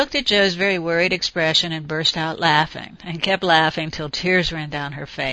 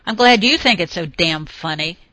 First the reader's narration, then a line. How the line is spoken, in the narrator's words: snapped